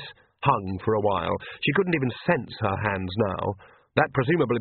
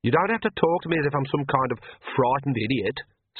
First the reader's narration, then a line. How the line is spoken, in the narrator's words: snapped Agnes